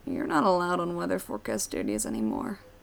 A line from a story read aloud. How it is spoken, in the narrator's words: Keely mumbles